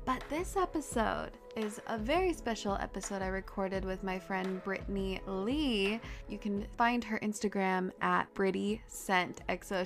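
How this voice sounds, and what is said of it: Stuffy, congested voice. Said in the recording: “You will hear it in my voice, my stuffy voice, because at this time I was still getting over a cold ... apologizing for the stuffiness”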